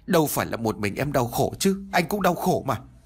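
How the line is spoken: Near shouting. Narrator (Vietnamese): anh Cảnh nói như quát

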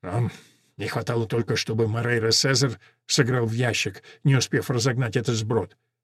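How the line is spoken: Muttered under breath. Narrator (Russian): пробормотал себе под нос Мурау

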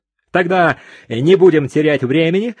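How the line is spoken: Exclamation. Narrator (Russian): воскликнул генерал

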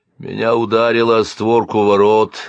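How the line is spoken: Muffled voice. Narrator (Russian): глухо произнес Силант

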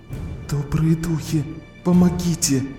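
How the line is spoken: Silent pleading prayer. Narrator (Russian): Мысленно взмолилась она

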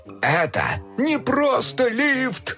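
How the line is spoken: Shouting, suddenly breaking off. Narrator (Russian): Уже кричал док, но вдруг осекся

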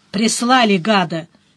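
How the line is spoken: Rude grumble. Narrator (Russian): невежливо проворчал возлюбленный

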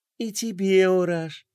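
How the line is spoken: Affectionate. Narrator (Russian): ласково сказала принцесса

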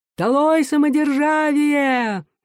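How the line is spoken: Shouting. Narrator (Russian): он кричал

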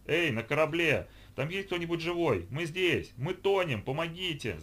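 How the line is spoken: Shouting. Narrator (Russian): закричал Иван

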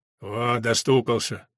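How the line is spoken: Wounded man grumbling. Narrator (Russian): проворчал кто-то из раненых

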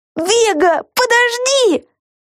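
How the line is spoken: Shouting. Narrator (Russian): закричала Люси

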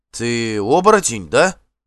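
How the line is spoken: Uncertain question. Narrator (Russian): неуверенно спросил Эйвенхёльд

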